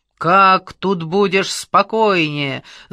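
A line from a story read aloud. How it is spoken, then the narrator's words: Shouting. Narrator (Russian): закричал Шумаев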